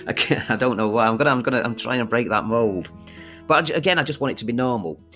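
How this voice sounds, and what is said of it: Manchester accent. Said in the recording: “such a weird accent? ... I am from Manchester ... this kind of accent”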